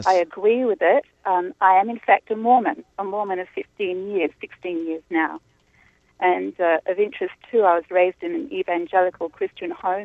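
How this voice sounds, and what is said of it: Australian accent. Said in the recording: “You can tell by the accent I'm not from here. I'm from Australia.”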